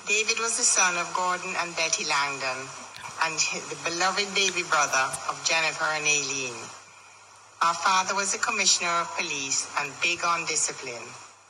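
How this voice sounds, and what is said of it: Jamaican accent. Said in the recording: “this is my mother's cousin in Jamaica ... isn't that great? Like, that accent.”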